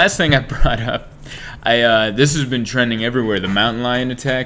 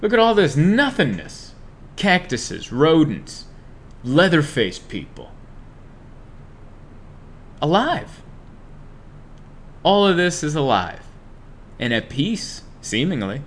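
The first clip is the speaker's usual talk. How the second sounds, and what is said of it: Emotional, poetic delivery. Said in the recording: “Is that too poetic? I'm sorry, I almost got emotional there.”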